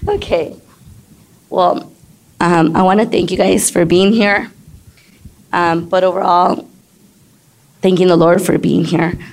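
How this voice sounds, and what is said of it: Hoarse, strained voice. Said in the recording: “excuse my voice ... at times I lose my voice, and sometimes it's just hoarse”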